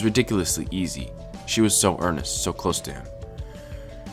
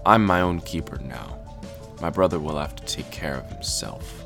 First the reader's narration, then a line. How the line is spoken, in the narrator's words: Gray said evenly